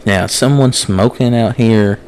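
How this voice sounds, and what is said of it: Imitating a friend's mother. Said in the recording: “Why you make my mom sound like that? ... impersonate her”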